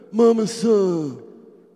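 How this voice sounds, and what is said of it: Marlon Brando impression. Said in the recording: “You like impersonations? ... That's Marlon Brando.”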